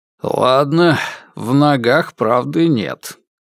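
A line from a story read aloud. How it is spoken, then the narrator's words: Grumbling. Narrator (Russian): пробурчал он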